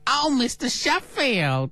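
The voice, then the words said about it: Fran Drescher's Nanny impression. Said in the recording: “I'll give you mine. ... Oh, that is much better. ... That is so good.”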